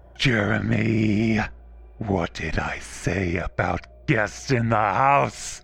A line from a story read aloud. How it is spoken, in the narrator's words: She hissed, spitting black goo from her mouth